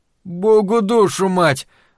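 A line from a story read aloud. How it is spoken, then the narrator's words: Exhaled exclamation. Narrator (Russian): выдохнул Стью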